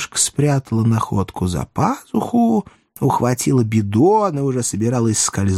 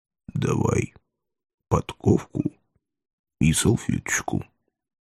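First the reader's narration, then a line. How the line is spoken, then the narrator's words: Quiet whisper. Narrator (Russian): тихо шепнул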